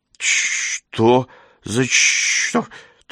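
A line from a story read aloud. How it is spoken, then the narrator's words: Strained, forced out. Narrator (Russian): только и выдавил он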